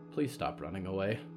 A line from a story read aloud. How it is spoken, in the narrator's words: Jedediah whispered